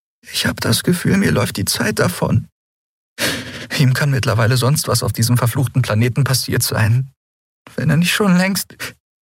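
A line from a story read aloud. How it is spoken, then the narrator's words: Choked voice. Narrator (German): sagte sie mit erstickter Stimme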